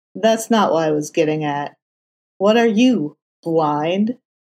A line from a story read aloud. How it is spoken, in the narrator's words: Matt repeated with a low chuckle